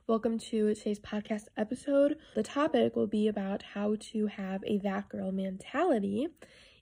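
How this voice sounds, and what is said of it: Slightly raspy voice. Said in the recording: “I sound a little raspy? I feel like I do.”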